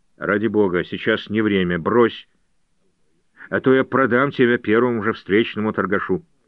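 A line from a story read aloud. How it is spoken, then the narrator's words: Grumbling. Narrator (Russian): Джордж проворчал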